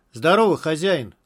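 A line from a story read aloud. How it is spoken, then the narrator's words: Loud greeting. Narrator (Russian): громко сказал Тимур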